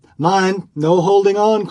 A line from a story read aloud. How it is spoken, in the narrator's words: cried another